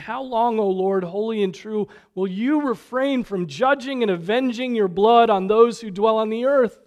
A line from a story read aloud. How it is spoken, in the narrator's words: they cried out with a loud voice, saying